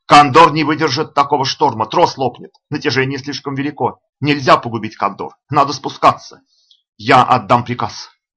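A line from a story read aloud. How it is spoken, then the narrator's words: Shouted again. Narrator (Russian): закричал вновь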